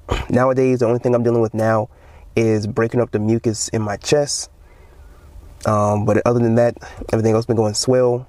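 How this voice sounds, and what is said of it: Slightly off, deeper than usual voice. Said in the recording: “My voice is a little off, so if it sounds a little deeper than usual”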